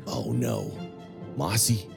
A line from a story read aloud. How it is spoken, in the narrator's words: Under his breath, say